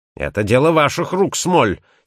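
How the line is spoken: Angry. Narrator (Russian): сердито проговорил Этельни Джонс

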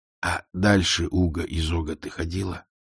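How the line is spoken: Hissing. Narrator (Russian): прошипел он

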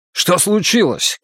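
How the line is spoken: Shouted. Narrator (Russian): крикнул он

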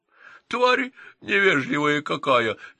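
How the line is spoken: Drunken giggling. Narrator (Russian): нетрезво хихикнули гномы

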